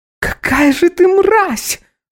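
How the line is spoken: Ex-wife shrieking. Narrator (Russian): Взвизгивает моя некогда женушка

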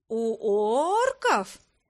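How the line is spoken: Meaningful, drawn-out. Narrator (Russian): многозначительно протянула я

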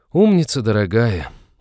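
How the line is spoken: Heavy sigh. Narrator (Russian): тяжко вздохнул Натан

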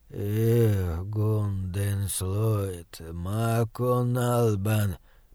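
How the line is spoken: Muttering in foreign tongue. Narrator (Russian): пробормотал он нернистериском

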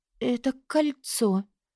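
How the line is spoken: Whisper. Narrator (Russian): прошептала

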